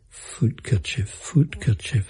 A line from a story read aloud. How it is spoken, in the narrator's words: I mumbled into her ear